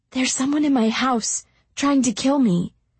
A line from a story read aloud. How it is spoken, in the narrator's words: whispered